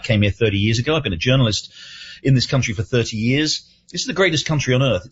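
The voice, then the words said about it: Non-native foreign accent. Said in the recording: “I'm an immigrant, as you can probably tell from my accent.”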